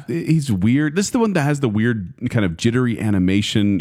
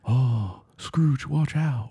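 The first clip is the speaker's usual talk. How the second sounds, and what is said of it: Nicolas Cage impression, British accent. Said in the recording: “Can I hear quiet Nicolas Cage do a British accent? ... That's about the effort.”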